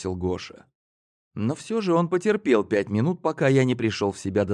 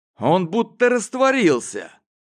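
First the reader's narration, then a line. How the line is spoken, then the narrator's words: Almost shouted. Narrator (Russian): почти выкрикнул Гоша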